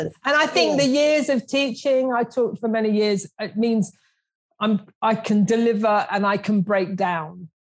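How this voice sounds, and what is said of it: South London accent. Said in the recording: “I'm the grubby South Londoner. ... And you have the South London.”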